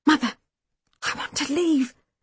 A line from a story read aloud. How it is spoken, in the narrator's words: I whispered furiously